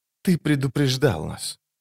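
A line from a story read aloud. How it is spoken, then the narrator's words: Whisper. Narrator (Russian): прошептала она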